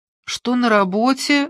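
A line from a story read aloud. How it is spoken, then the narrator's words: Sleepy question. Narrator (Russian): сонно спросила она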